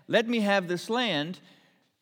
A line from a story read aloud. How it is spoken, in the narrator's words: Naboth said